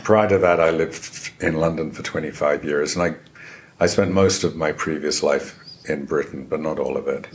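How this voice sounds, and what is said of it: Non-local accent. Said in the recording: “you can probably tell from my accent that I did not grow up here.”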